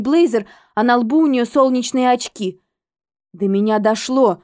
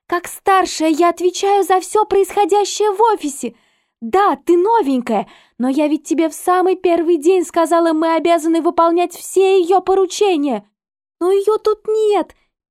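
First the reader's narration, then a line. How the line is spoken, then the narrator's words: Squeaky. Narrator (Russian): пискнула я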